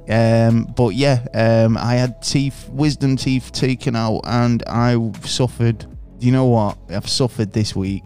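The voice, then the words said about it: Slightly slurred speech. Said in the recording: “You might hear it in my voice, slurring my words a little bit.”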